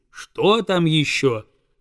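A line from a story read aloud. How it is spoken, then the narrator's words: Plain. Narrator (Russian): спросила гусыня-предводительница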